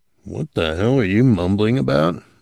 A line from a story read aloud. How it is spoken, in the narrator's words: Morrison grunted